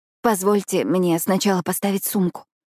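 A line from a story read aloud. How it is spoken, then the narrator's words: Trembling whisper. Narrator (Russian): шепчу я дрожащим голосом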